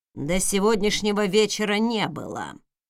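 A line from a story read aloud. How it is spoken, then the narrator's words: Muttered. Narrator (Russian): пробурчал Хэллоуин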